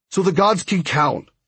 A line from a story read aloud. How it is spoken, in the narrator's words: Hondo said impatiently